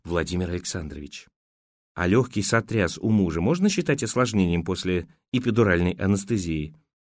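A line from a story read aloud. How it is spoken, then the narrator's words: Whisper into ear. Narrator (Russian): Ира склонилась к его уху и прошептала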